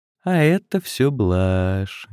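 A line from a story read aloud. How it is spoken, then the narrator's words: Sweet, kindly voice. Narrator (Russian): говорит добреньким голосом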